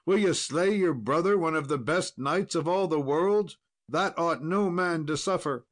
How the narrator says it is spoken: he cried

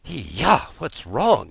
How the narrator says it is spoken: he muttered in his sleep

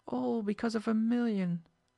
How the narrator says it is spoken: the sick man moaned

